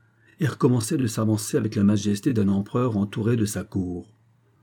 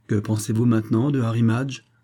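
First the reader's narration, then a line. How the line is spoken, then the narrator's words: Plain. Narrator (French): demanda Jonas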